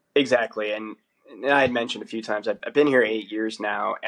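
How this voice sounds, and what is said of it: American accent. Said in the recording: “the accent sticks out when you're not Australian and they know you're American”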